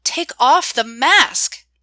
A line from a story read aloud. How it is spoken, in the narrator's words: I shouted